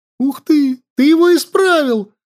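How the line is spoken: Joyful. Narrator (Russian): радостно сказала она

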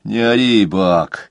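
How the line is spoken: Lazy reply. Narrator (Russian): лениво отозвался один из новых мазуровых знакомцев

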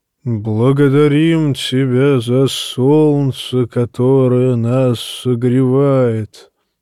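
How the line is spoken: Deep booming proclamation. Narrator (Russian): возгласил Макорро басом, идущим из глубины его массивного торса

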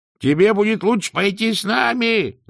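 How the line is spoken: Shouting. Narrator (Russian): закричал Сдумс

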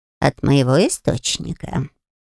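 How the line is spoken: Mutter, soft growl. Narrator (Russian): пробормотал Альфи и тихонько рыкнул

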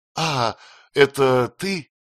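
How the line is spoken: Feigned surprised exclamation. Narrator (Russian): воскликнула Пьеронша, притворяясь изумленной

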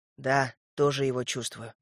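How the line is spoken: Whispered reply. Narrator (Russian): прошептал я в ответ

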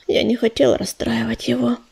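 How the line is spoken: Sighing. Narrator (Russian): вздохнула она

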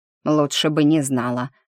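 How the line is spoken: Snorting. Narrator (Russian): фыркнула госпожа Отц

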